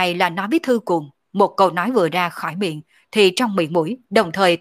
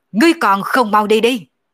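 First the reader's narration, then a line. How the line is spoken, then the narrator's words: Angry roar. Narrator (Vietnamese): nổi giận gầm lên một tiếng nói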